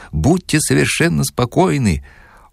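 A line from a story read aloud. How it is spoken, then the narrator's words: Sweet giggle. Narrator (Russian): Он сладостно хихикнул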